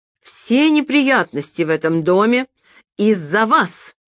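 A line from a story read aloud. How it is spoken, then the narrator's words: Near shout. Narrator (Russian): почти выкрикнула она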